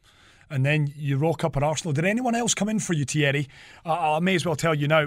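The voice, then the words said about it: Mancunian English accent. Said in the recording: “as you can hear the Mancunian accent”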